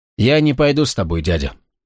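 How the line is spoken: Calm. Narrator (Russian): спокойно сказал Гвалиор

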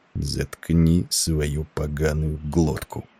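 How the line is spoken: Fierce whisper. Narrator (Russian): послышался свирепый шепот Петерсона

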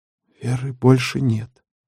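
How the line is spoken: Quiet, small man. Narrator (Russian): тихо сказал недомерок

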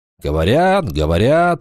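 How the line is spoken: Grumbling. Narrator (Russian): проворчал Вольф

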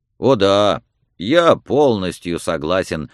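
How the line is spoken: Glum, saddened young man. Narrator (Russian): отозвался юноша уныло, опечаленный этими словами

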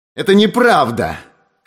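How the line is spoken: Shouted, regaining insolence. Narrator (Russian): крикнул Эверетт, которому постепенно стала возвращаться его наглость

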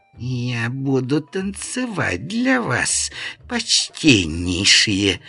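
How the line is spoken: Hissing whispered singsong. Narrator (Russian): свистящим шепотом пропела она

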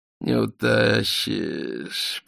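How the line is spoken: Muttering. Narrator (Russian): пробормотал Полканов

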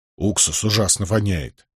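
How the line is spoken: Grumbled. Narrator (Russian): буркнул Нетти

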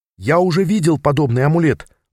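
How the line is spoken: Excited. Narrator (Russian): взволнованно объяснил я

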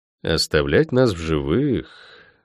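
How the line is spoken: Drawn-out drawl. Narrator (Russian): протянул я

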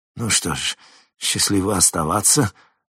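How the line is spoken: Forced out. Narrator (Russian): выдавил он из себя

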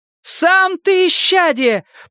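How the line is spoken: Shouting while running. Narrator (Russian): прокричала Энея уже на бегу

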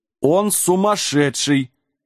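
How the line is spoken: Giants roaring with laughter. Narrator (Russian): расхохотались синие гиганты

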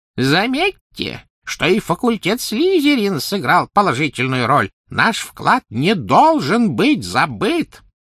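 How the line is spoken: Thin high-pitched call. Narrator (Russian): Финиас Найджелус взывал своим тонким высоким голосом

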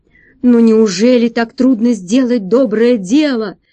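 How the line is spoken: Monstrous roar. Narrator (Russian): взревело чудовище

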